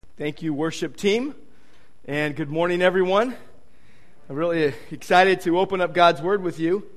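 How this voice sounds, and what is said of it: Deeper, nasal voice from a cold. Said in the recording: “I have a bit of a cold today ... this is not my usual voice. It's a little bit deeper today, and it's a bit nasally”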